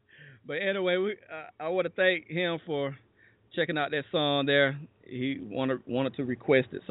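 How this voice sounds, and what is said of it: Hoarse, fading voice. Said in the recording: “I'm losing my voice.”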